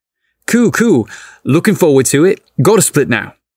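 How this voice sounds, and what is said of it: Thick foreign accent. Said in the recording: “In his thick accent”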